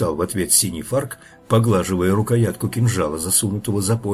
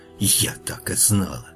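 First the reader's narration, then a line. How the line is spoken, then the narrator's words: Witch's angry whisper. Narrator (Russian): ведьма не удивилась и только зло шепнула лешему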